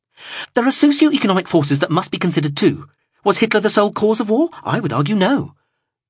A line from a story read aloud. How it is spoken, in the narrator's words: then blurted